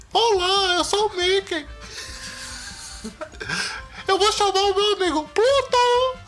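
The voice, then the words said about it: Mickey Mouse cartoon voice imitation. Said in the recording (Portuguese): “Eu queria imitar o Mickey ... Fica igualzinho. Perfeita imitação.”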